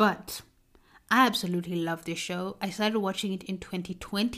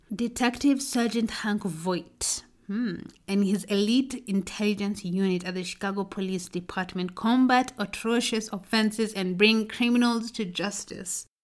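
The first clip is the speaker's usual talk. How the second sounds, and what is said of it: Put-on accent, stressing certain words. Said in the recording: “I created an accent right there and insinuated on certain words”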